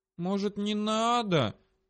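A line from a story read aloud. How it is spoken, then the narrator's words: Slightly plaintive drawl. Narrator (Russian): чуть жалобно протянула Дрика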